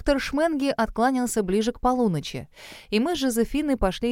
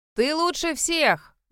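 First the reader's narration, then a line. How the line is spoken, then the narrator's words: Loud reassurance. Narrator (Russian): громко заверила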